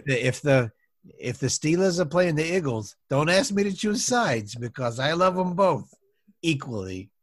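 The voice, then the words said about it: Unique mixed Pennsylvania accent. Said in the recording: “That accent's so unique. I've never heard of anything like it. ... My father was from Philadelphia, and my mother was from Pittsburgh. So it's a bit of a mishmash.”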